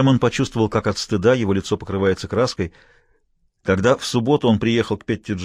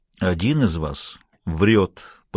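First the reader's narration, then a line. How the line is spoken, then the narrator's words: Through clenched teeth. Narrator (Russian): процедил Хэммонд сквозь зубы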